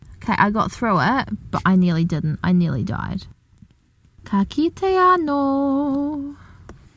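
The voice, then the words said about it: Distinctive accent. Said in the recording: “people like her accent”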